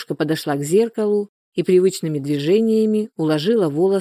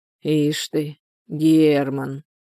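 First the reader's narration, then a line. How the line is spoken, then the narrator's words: Drawling. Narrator (Russian): протянула Анфиса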